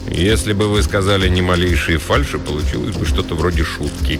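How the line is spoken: Sour grumble. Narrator (Russian): кисло буркнул Вейнбаум

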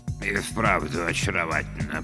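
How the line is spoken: Mutter. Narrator (Russian): пробормотал Бёрджесс

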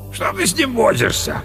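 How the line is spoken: Deep booming voice. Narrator (Russian): прогудел пожиратель лосятины

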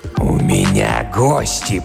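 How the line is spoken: Growled. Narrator (Russian): прорычал он

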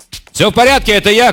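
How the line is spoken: Shouted. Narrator (Russian): крикнул Кисима

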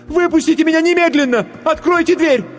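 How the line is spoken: Choked female scream. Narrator (Russian): Она сглотнула тяжелый ком в горле и закричала

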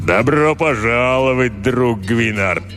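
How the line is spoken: Booming hum. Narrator (Russian): прогудел он

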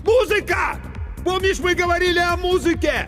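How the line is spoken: Shouting with full force. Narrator (Russian): Иван, что было мочи, крикнул

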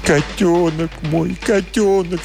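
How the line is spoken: Sobbing. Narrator (Russian): всхлипывал он

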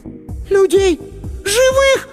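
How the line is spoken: Shriek. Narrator (Russian): Сонька взвизгнула

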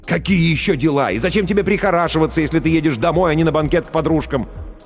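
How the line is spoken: Almost shouting. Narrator (Russian): Ллойд почти кричал

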